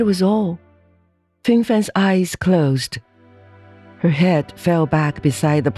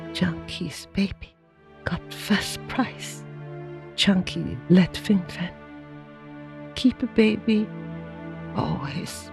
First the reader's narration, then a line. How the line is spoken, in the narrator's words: And Fingfan, roused by the loud voice, feebly raised her head and looking straight into her husband's eyes, said